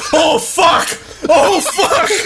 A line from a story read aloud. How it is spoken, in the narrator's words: let out a guttural scream and say